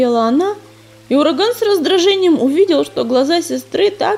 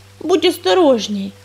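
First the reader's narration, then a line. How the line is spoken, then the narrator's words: Embarrassed grumble, young rook. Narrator (Russian): смущенно проворчал грачик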